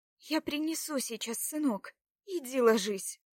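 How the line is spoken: Commanding. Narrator (Russian): велела добронрава

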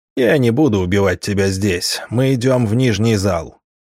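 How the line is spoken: Lion's growl. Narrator (Russian): прорычал лев

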